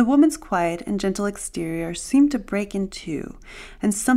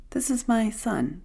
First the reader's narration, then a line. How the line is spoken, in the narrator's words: the woman said calmly